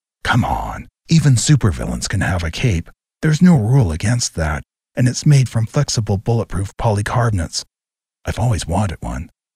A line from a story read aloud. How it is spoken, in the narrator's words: Looking hurt, Rob snarled